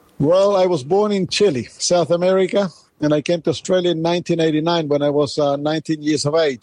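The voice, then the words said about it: Slight foreign accent in English. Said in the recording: “you have a little accent there”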